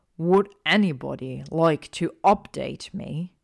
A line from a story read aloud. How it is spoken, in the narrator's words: Ron snarled, his voice low